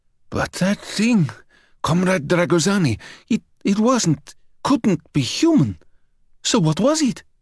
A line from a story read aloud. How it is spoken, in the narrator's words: Batu hissed